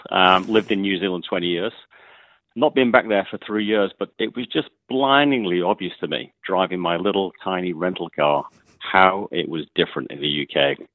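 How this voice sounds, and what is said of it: English accent. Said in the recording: “You can probably guess from my accent that I'm English”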